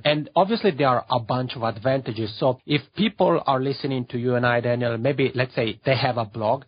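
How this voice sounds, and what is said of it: Funny accent. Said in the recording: “they can hear my funny accent”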